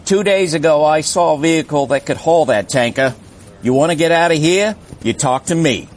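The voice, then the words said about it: Poor put-on Australian accent. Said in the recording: “your Australian accent... Yours is way worse. Way worse... It wasn't good... Terrible.”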